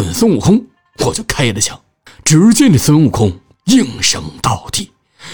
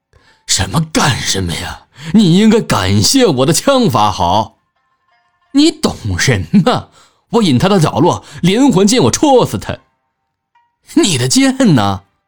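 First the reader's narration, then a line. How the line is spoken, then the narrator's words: Hearty laughter. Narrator (Chinese): 我哈哈大笑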